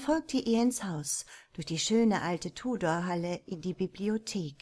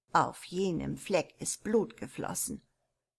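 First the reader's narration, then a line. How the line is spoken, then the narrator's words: Old woman, quiet. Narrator (German): erwiderte die alte Haushälterin leise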